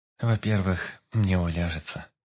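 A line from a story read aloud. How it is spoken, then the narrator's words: Girl's sad reply. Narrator (Russian): грустно ответила девушка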